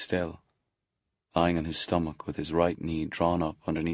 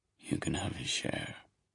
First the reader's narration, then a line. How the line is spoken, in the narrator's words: said quietly